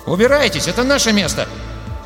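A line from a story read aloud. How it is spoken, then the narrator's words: Cracking young indignant voice. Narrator (Russian): Заявил он ломким, молодым голосом, полным возмущения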